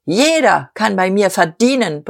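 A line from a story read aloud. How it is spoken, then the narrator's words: Forceful roaring. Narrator (German): brüllte Diederich mit unverminderter Gewalt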